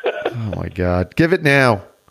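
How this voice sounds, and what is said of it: Yelling. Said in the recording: “why are you yelling at me so early in the morning?”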